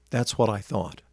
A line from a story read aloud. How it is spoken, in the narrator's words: she said quietly